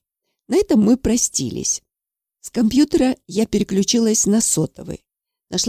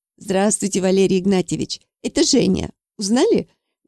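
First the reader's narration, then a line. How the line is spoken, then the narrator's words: Cheerful questioning reply. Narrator (Russian): весело ответила я вопросом на вопрос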